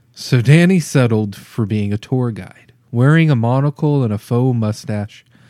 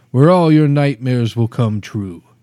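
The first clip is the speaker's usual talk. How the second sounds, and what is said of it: Put-on Transylvanian accent. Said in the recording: “in his best Transylvanian accent”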